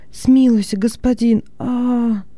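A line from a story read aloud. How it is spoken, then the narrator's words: Slaves moaning. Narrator (Russian): стонали рабы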